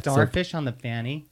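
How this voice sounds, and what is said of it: Put-on American accent. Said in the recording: “You did that accent wrong. ... I didn't do the accent wrong. An American accent. ... Yeah, but it was very American.”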